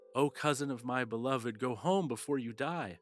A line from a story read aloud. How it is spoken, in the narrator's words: Calciope wept and cried